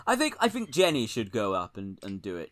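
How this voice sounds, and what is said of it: Poor imitation of another person's voice. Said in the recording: “that's not a good Keir impression. That's David Cameron.”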